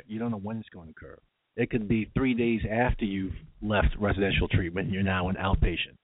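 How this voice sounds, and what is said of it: New York accent. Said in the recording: “people have been making fun of me, my New York accent, saying axe.”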